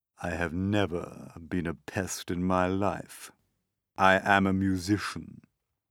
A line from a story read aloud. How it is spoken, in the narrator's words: he said, speaking in a deep, slow, scornful voice